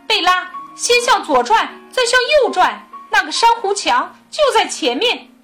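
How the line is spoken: Loud. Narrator (Chinese): 兰姆大声说

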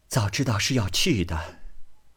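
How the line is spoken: Sighing. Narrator (Chinese): 乃叹道

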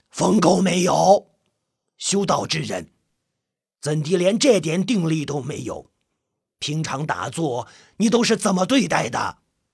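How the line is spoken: Angry stern rebuke. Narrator (Chinese): 朴云子 不由发怒 厉声呵斥道

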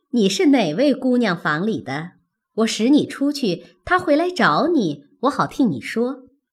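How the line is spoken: Laughing. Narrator (Chinese): 凤姐笑道

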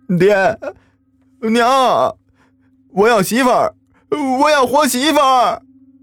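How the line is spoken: Wailing cry. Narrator (Chinese): 大傻子的哭喊声

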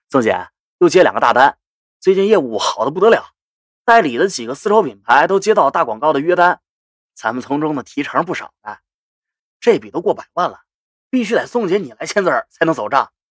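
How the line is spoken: Smiling. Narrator (Chinese): 张帆对我笑道

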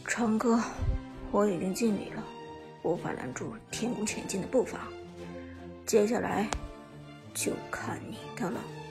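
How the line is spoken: Sighing, low murmur. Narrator (Chinese): 寒山 轻轻叹了口气，自言自语的低声说道

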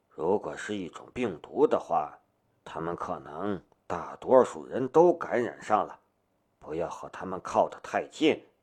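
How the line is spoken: Whispered. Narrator (Chinese): 夏雷凑到他的耳边，小声的道

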